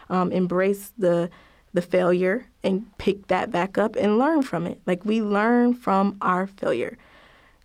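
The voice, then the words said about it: Slightly raspy voice. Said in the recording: “I have a cold, so bear with me, guys. My voice is a little raspy”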